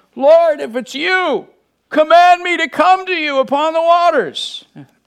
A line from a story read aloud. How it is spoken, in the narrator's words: He yelled into the roaring wind